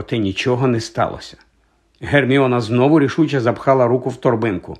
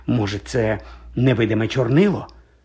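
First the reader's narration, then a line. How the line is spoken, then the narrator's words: Whispered. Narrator (Ukrainian): прошепотіла вона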